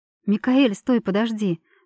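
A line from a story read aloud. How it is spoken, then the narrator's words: Soft, smiling, swooning. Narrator (Russian): мягко улыбнулась я, млея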